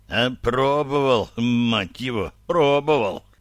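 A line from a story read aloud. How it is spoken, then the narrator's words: Groaning. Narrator (Russian): застонал Пульпан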